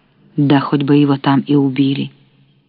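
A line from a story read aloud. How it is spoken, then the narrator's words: Sudden sharp. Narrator (Russian): вдруг резко сказал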